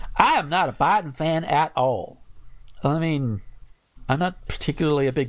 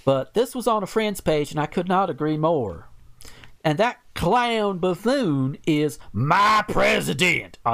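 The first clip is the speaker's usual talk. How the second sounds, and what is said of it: Put-on Southern US accent. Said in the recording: “the accent is on purpose because they're both Southern”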